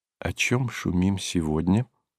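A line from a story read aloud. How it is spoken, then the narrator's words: Low-voiced question. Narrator (Russian): спросила его вполголоса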